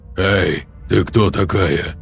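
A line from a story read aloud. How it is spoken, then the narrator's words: Hoarse. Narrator (Russian): хрипло сказал Назери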